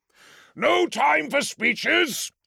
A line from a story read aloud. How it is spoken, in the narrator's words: he roared